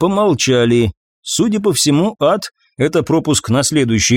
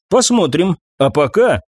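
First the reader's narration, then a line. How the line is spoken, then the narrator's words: Smirking grunt. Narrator (Russian): я хмыкнул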